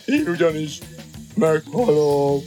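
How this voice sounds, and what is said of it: Even deeper, sepulchral, mournful voice. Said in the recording (Hungarian): “Mondta még síribb hangon”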